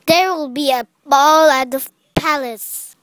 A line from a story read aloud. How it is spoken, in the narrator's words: her stepmother exclaimed